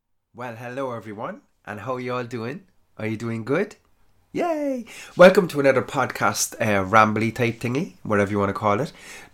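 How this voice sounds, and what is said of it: Stuffed-up, congested voice. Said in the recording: “my voice is slightly different. I'm a little bit stuffed up because I have hay fever”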